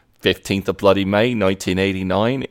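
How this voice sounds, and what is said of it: Put-on Australian accent. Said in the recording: “just kind of slides into an Australian accent ... is he talking in an Australian accent?”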